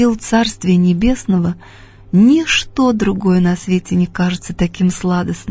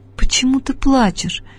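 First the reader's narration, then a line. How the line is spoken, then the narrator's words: Surprised whisper. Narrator (Russian): удивленно шепнула мне Мария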